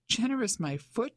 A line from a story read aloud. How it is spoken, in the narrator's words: she exclaimed